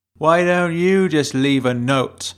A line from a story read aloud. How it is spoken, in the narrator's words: shouted the award-winning actor above her